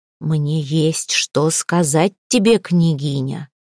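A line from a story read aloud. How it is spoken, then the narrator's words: Low rumbling voice. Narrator (Russian): низким ракочущим голосом молвила Малфреда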